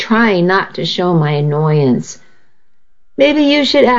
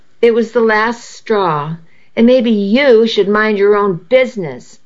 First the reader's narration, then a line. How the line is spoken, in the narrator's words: I snapped